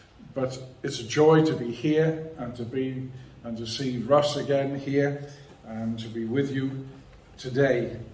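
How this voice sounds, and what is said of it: Non-local accent. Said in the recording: “As you will see, hear from my accent, I'm not from these parts at all.”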